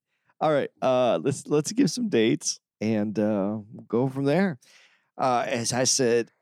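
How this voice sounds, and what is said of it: Usual voice. Nothing is said of it.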